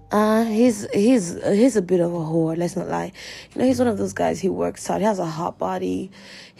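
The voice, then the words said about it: Hoarse, fading voice. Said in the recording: “I don't know why I'm losing my voice right now. Maybe it's because I'm under AC 24/7”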